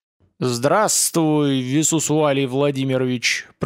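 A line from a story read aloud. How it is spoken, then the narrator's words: Booming voice from the sky. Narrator (Russian): прогремело с небес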